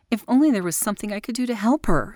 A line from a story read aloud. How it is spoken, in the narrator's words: she cried aloud